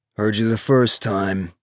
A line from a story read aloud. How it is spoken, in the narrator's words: Hutch said, his voice cool and gray as slate